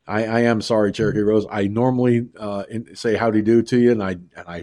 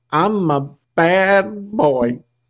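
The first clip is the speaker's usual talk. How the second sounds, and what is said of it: Cheesy Lou Costello impression. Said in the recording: “My cheesy Costello impression”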